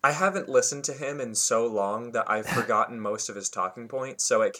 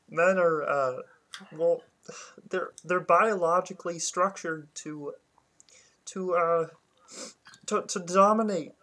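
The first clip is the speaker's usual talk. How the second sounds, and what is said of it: Poor impression of a male commentator. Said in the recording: “I'm so bad at it. I can't do it. ... I can't really do a very good impression.”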